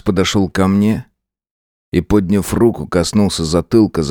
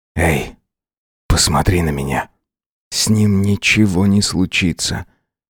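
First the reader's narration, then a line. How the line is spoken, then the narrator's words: Hoarse. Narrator (Russian): Хрипло проговорил он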